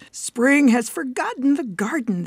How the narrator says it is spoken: they cried

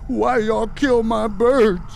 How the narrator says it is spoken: Still plastered to the wall, he screamed

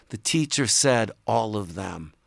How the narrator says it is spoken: He whispered

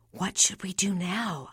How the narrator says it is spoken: I whisper

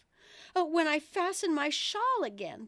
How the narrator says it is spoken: the poor queen groaned out

